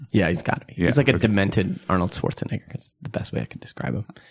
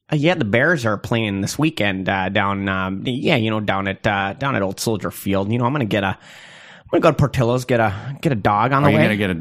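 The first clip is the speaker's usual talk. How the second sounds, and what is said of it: Put-on Chicago accent. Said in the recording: “pretending to do Chicago accents ... you guys were nowhere close to Chicago ... Let's hear your Chicago accent.”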